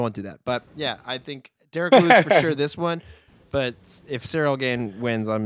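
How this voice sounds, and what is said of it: Usual voice. Nothing is said of it.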